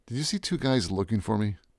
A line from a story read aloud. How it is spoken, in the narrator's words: leaned into him and said quietly